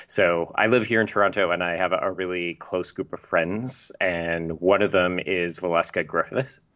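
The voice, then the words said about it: Canadian accent. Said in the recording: “I'm Canadian, in case people can't tell. I, of course, sound like myself, but other people tell me I have a Canadian accent.”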